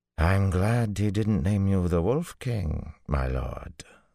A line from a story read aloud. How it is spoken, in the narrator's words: the Banner General drawled